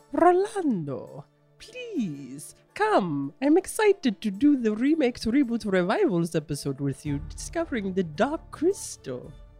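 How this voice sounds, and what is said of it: Impression of Chamberlain. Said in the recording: “good impression of the one and only Chamberlain”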